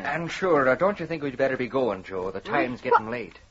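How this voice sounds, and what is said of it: Irish accent. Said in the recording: “you're talking exactly like Tim. Well, you sound as if you just come from the old country ... An Irish accent can be catchy”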